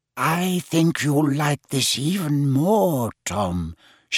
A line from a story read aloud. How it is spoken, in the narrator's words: she whispered